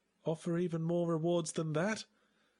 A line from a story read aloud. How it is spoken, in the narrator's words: I sighed